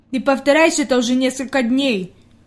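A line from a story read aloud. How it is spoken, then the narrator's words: Displeased grumble. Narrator (Russian): недовольно пробурчал Питер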